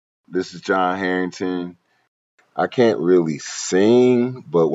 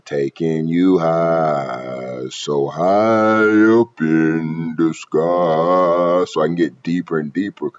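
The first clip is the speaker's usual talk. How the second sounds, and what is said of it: Low, deep demon character voice. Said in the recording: “that's the demon voice ... I'm getting low because I'm a demon. I'm getting that demon voice.”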